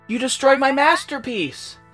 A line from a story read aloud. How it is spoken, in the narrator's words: he wailed